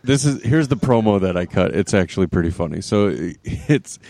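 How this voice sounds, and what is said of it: Usual voice. Nothing is said of it.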